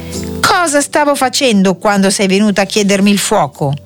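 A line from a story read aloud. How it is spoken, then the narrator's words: Ogre's shout. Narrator (Italian): l'orco che, come al solito, gridò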